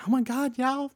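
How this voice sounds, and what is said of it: Squealing imitation of another person's voice. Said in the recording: “squealed and went ... That's my Rebecca impression.”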